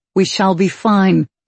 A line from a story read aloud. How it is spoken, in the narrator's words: he said firmly